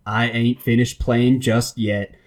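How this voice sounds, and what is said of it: Put-on Southern accent. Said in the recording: “I'll do my best Southern accent”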